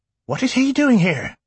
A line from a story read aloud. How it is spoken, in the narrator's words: she cried out